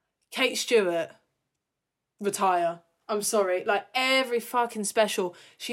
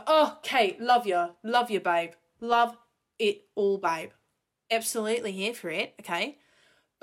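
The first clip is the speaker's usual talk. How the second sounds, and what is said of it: Puts on a different accent. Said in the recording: “why did I change my accent?”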